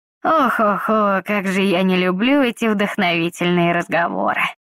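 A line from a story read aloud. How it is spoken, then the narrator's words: Sighing. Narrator (Russian): Вздохнул он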